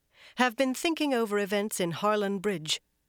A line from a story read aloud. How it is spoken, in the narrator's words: Van Deen went on more firmly